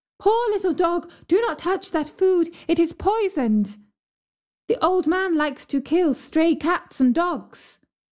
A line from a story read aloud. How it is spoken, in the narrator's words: the girl ... cried